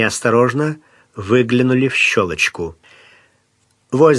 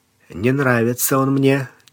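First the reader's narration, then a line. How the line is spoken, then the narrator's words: Said quietly. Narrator (Russian): тихонько сказал Сварог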